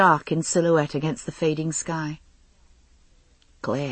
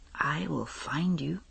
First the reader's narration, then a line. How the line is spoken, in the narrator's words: he whispered in my ear